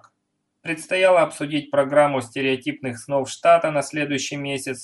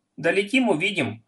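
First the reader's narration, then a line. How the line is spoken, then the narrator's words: Plain. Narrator (Russian): ответил Риф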